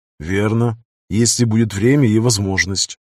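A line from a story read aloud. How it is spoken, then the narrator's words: Calm reply. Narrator (Russian): спокойно отозвался Брэд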